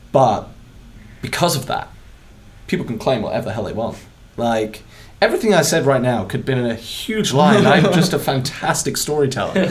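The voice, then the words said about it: British accent. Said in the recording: “It's my British accent.”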